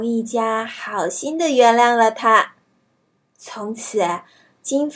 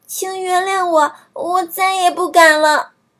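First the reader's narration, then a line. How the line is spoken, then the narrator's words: Crying. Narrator (Chinese): 金发姑娘哭了起来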